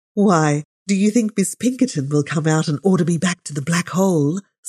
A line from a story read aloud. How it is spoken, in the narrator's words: said Rebecca, laughing